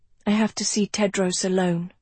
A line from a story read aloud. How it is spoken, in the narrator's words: she said quietly